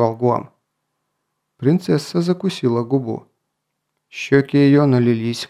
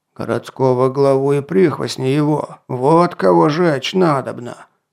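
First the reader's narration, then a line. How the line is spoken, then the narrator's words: Growl. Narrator (Russian): прорычал Атар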